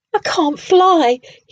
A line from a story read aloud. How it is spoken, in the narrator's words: Hubert cried unhappily